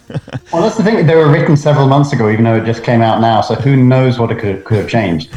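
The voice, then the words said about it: Slightly American-tinged accent. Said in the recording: “accent slightly. As Scott noted earlier, there's a bit more of an American accent there”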